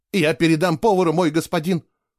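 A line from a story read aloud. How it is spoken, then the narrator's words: Timid babbling. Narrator (Russian): пролепетал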